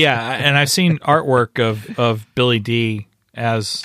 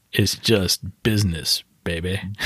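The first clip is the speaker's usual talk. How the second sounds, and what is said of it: Billy Dee Williams impression. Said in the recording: “Billy Dee ... as you were doing your the impression”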